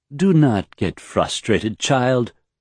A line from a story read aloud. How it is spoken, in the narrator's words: Omine said soothingly